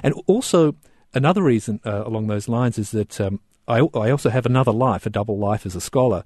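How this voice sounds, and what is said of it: Australian accent. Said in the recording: “particularly obvious on radio, fact of my accent, I'm an Australian”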